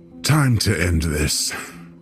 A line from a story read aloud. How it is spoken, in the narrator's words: the guide snarled through clenched teeth